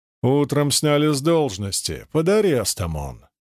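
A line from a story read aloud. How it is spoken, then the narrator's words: Stern, flat voice. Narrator (Russian): строго ответил дежурный бесцветным голосом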